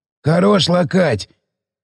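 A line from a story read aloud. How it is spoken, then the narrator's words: Hoarse reproach. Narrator (Russian): попенял сиплый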